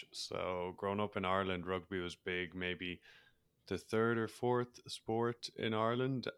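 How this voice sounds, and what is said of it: Irish accent. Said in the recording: “as people probably are able to pick up on my accent, I'm Irish”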